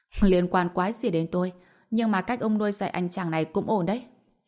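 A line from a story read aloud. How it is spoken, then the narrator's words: Bursting laughter. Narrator (Vietnamese): Tần Sơn bật cười thành tiếng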